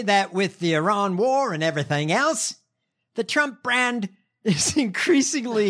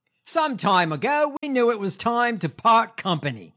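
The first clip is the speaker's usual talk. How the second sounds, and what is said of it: Poor put-on Australian accent. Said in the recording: “In my shitty Australian accent.”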